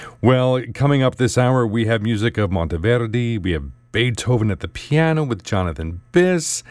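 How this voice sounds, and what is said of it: Usual voice. Nothing is said of it.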